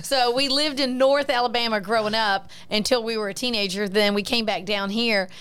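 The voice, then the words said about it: Southern American twang. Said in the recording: “I can't lose my southern twang.”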